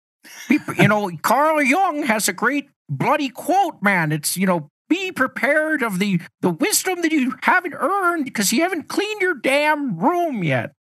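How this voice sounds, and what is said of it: Imitates another person's voice. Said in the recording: “I'm going to do a Jordan Peterson impression ... That was perfect ... Sometimes I break out a little JP”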